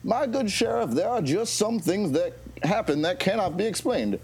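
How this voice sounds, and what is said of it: Put-on accent. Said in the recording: “why do you have an accent?”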